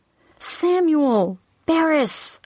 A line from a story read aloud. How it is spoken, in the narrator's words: I cried out